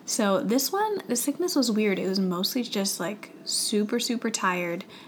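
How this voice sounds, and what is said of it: Weak, strained voice from illness. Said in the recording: “my voice sounds a little weird today. I am coming back from a sickness ... when I get sick, I almost always lose my voice”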